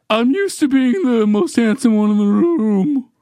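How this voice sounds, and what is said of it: Imitates another person's voice. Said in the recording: “That's a really good impression. ... That was a good Brandon impression. ... You nailed it.”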